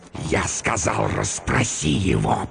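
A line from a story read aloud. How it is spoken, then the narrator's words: Hissing. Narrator (Russian): прошипел он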